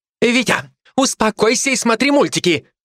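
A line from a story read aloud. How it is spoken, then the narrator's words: Shouted. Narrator (Russian): крикнула та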